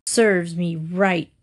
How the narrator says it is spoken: growled the wolf

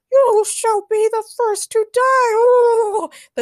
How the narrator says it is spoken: the turkey leader shouted

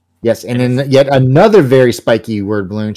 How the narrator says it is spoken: she shouts

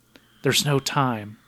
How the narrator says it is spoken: He whispers to her

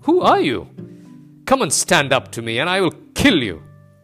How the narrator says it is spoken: He cried

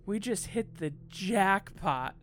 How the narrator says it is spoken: Carlos exclaimed

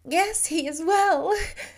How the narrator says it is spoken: she sobbed

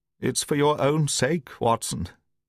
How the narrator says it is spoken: he croaked

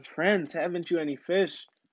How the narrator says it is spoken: he called out to them

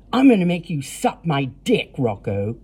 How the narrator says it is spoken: Cody snarled

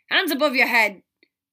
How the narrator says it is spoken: Thomas barked, sounding like those Muggle cop shows

